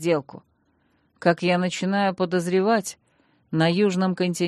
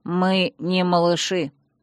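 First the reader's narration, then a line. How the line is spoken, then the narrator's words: Stern interruption. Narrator (Russian): строго оборвал меня старший страж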